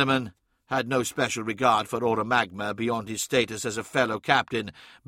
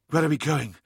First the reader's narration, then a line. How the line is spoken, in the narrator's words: gasped Hathor Mart as they ran